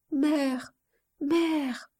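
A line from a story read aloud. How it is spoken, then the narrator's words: Child's soft trembling voice. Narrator (French): disait par intervalle l'enfant d'une voix douce et tremblante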